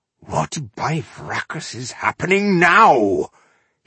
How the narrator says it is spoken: he thundered, catching a noise at his back

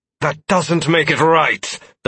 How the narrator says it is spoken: Donovan exclaimed

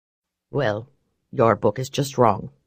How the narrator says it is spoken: he said flatly

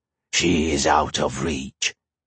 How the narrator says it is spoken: the monster hissed

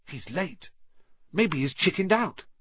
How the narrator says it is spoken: Ron whispered

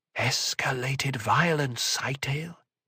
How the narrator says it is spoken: O'Drade's voice was almost a whisper

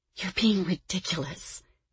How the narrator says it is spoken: she whispered

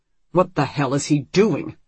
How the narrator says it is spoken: Richard growls

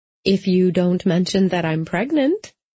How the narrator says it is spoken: said sweetly

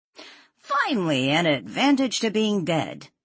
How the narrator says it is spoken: Jack said cheerfully

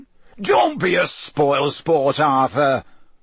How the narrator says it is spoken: boomed Ludo Bagman

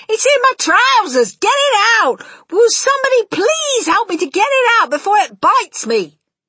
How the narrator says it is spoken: the stupid cook still shouting

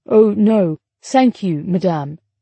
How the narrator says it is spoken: he replied, speaking slowly and trying his best to speak French without a telltale British accent

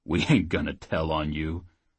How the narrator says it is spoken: Oates chuckled

